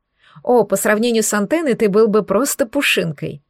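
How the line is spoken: Laughing quip. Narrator (Russian): хохотнула я

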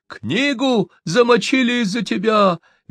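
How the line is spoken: Angry shriek. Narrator (Russian): визжал писарь, озлобившись на кормщика

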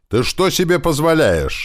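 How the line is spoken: Girl shouting loudly into ear. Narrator (Russian): громко прокричала ему на ухо девушка

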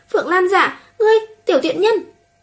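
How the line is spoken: Breathless furious screaming. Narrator (Vietnamese): Trầm Chân Châu gào thét kêu lên, thở không ra hơi, tức giận mắng chửi

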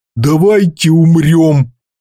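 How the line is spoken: Fisherman groaning. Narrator (Russian): простонал один из рыбаков

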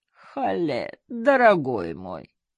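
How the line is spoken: Moaning. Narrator (Russian): простонал Абдул-Гани

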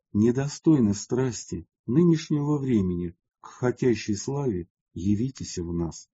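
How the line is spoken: Quiet. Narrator (Russian): Он только тихо сказал

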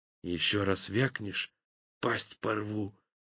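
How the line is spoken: Whispered threat. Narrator (Russian): шепотом пригрозил насадный на понятном северном языке

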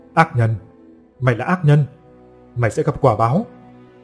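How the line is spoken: Cackling loud shout. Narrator (Vietnamese): người đàn bà cười khanh khách mà hét lớn

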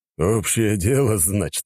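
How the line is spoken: Approving grunt. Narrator (Russian): одобрительно хмыкнул барон

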